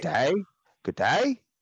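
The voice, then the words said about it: Mock Australian accent, rising inflection. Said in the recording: “the Australian accent ... Everything's an influx up and they're always asking a question.”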